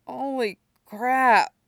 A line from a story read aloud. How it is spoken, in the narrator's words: mumbles